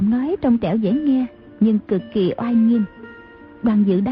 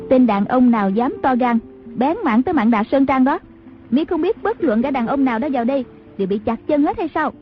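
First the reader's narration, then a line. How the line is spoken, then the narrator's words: Woman shouting from afar. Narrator (Vietnamese): tiếng đàn bà quát vọng ra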